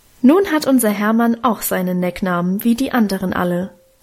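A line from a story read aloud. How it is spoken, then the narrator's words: Plain. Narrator (German): sagte Mutter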